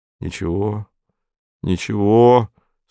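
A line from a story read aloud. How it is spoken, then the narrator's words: Affectionate, gentle. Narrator (Russian): сказал Антон ласково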